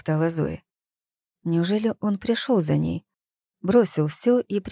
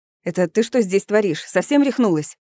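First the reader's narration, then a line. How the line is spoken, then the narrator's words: Sharp scolding shout. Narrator (Russian): прикрикнул он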